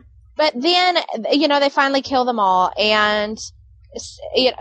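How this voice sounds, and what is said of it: Usual voice. Nothing is said of it.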